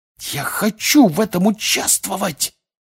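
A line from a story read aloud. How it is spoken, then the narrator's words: Loud hiss. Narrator (Russian): прошипел на весь стол Фред Уизли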